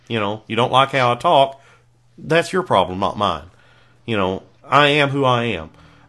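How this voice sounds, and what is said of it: Rural Kentucky Southern accent. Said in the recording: “talk like a backwoods hick ... I'm from Kentucky ... raised in a swamp in South Florida”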